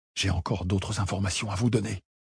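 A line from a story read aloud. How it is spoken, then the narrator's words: Hurried whisper. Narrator (French): s'empressa de chuchoter Monica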